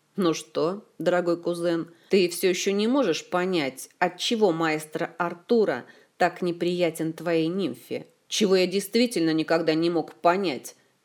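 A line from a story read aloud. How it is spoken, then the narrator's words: Angry grumble. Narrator (Russian): сердито буркнул принц-бастард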